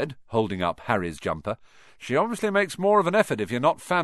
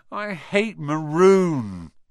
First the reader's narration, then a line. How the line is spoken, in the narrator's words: Ron moaned half heartedly